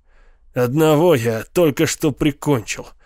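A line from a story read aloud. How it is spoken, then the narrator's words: Grumbled. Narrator (Russian): проворчал поэт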